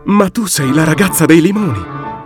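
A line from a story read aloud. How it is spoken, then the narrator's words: Exclaimed. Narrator (Italian): esclamò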